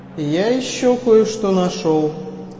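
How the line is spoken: Plain. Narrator (Russian): сказал

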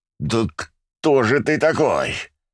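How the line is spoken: Growled. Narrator (Russian): Прорычал я

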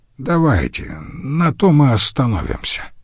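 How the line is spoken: Grumbling. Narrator (Russian): проворчал он

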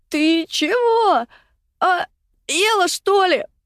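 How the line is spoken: Panicked choking rasp. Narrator (Russian): Прохрипела в смертельной панике, отплевываясь и продолжая глотать воду, Катя

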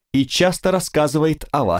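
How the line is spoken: Exclaimed. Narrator (Russian): воскликнул

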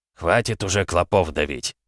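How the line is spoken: Grumbling. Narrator (Russian): проворчал Колесо

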